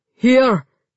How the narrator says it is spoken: he panted

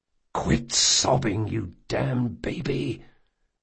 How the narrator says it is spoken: Jean hissed

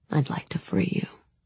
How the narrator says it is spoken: he said quietly

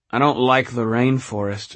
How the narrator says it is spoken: Ragnar said sadly

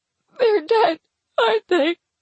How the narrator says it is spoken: I moan into his chest, rocking my head side to side in grief

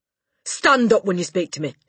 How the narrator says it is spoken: she snapped

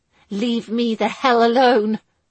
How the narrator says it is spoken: she bit out angrily

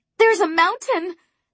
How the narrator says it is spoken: I shouted

